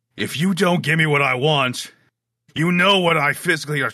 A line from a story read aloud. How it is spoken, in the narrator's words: the booming voice that had started to pick up that says